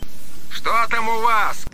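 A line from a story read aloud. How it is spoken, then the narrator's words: Shouting over loudspeaker. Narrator (Russian): кричал по громкой связи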